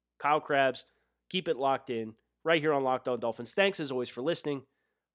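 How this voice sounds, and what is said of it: Northeastern US accent. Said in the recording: “this Northeastern accent is not going to allow me to change that one”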